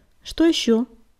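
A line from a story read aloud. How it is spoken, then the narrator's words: Calm. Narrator (Russian): спокойно спросила предводительница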